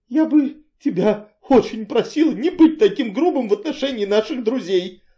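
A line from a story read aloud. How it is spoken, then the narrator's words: Meek, tearful voice. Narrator (Russian): сказала она кротко, хоть и сквозь слезы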